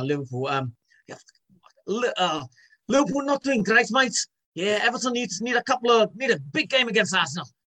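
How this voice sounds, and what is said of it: Weak put-on Scouse accent. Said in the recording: “Scouse one is quite good... I always do my Scouse accent with him... he always thinks it's terrible... Carragher... It was like terrible.”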